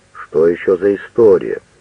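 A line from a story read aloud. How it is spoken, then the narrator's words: Deep male voice. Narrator (Russian): Кто-то из мужчин сказал басом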